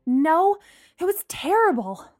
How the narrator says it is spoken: Lana groaned

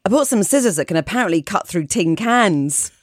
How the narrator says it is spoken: there was a very awkward silence for about 10 seconds before I blurted out

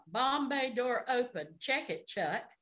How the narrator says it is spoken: Ray called out

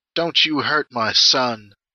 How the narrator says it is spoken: she croaks

